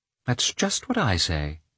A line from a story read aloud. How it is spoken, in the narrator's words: she answered, purposely ignoring the sarcasm of his tone, and calmly